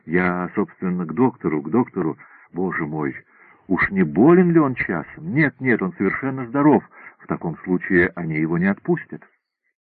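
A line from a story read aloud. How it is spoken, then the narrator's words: Muttered explanation. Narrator (Russian): Он бормочет в виде объяснения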